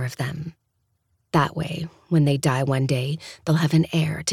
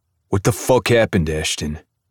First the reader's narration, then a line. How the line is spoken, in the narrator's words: Kashtan snaps, his playful banter now gone